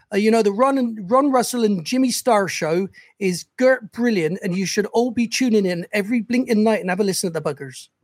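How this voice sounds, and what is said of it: Put-on Bristol West Country accent. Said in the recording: “I'm from Bristol originally, in the West Country... The accent for Bristol is a bit like this”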